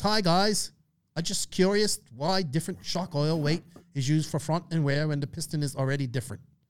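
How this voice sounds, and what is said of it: Poor put-on Australian accent. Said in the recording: “I know I butchered the Australian accent. I'm sorry.”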